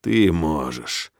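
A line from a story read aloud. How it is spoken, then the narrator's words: Hoarse. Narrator (Russian): хрипло говорю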